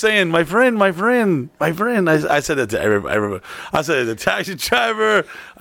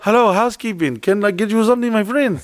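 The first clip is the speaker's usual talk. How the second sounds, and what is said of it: Put-on Mexican accent. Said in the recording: “Did you use the accent? ... Yeah, I feel like I became the Mexican employees. ... What do I just have an Indian twang to?”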